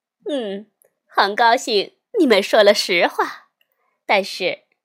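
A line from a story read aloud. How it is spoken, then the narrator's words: Smiling. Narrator (Chinese): 夏一老师笑眯眯地说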